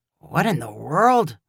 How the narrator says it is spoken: Ty muttered

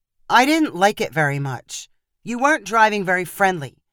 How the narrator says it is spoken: Rachel replied sharply

